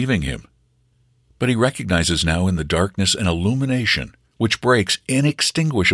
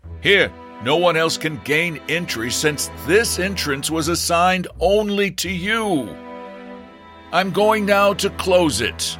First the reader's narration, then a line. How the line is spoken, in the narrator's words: sees that the man is already dying, and in order to reach his diminishing sense of hearing, he shouts at him